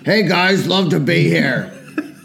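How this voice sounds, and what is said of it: Imitates another person's voice. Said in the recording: “not your finest impression”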